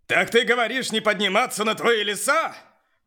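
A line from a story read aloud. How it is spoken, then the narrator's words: Shout. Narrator (Russian): прокричал Бронт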